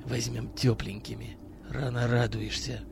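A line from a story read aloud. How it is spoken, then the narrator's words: Barely audible reply. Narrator (Russian): Еле слышно ответил Миронов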